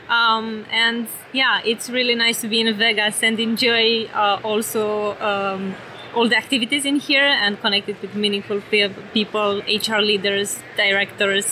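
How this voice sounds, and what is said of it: European accent. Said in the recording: “quite clearly from your accent, you're you're European.”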